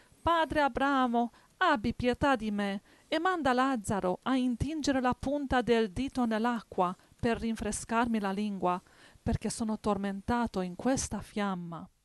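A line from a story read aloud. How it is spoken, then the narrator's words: Exclaimed. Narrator (Italian): esclamò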